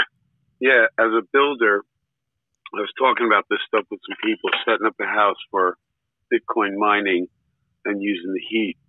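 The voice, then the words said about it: Worn-out, damaged voice. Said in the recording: “my voice is shot.”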